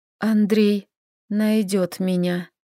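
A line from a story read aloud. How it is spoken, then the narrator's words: Trembling whisper. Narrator (Russian): прошептала, ощущая дрожь по телу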